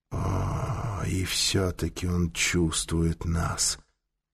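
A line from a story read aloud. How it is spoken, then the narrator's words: Whisper. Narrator (Russian): прошептал Таита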